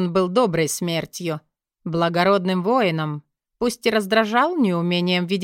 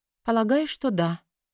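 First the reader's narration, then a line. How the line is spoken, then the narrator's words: Quiet reply. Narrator (Russian): тихо ответила ей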